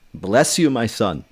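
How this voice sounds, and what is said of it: Stereotyped rabbi voice. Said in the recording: “I can do that voice. ... he talks like a rabbi. ... how to talk like a rabbi”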